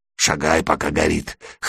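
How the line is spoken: Hoarse voice. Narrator (Russian): хрипло сказал бомж

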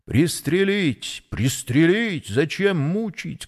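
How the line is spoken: Several voices shouting. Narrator (Russian): кричало несколько голосов

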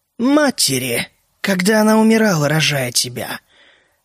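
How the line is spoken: Quiet sigh. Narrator (Russian): Джоан тихо вздохнула

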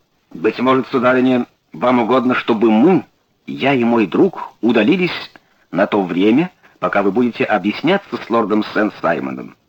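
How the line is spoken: Plain. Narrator (Russian): спросил Холмс

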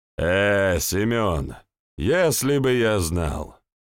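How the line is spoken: Heavy sigh. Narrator (Russian): Тяжело вздохнул дядя Гиви

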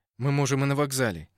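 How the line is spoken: Muttered. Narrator (Russian): не оборачиваясь, буркнул Петя

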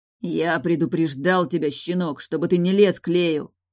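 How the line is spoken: Growl. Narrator (Russian): прорычал он

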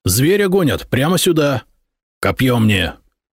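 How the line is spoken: Growling, slightly elated. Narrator (Russian): Рыкнул на слуг Ротари, который был в слегка приподнятом настроении

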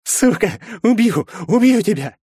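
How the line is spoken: Sobbing threat. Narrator (Russian): Сквозь всхлипы произнес он

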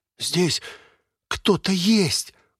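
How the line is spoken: Loud whisper. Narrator (Russian): громко прошептал Волда

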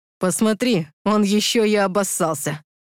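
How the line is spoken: Snorting. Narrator (Russian): хмыкнул Стас

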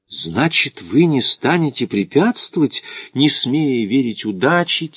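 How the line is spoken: Quiet question. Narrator (Russian): тихо спросил итальянец

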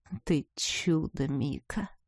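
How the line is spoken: Soft laugh. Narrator (Russian): Тихо рассмеялся он

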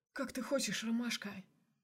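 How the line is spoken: Quiet question. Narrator (Russian): Тихо спросил Мишин

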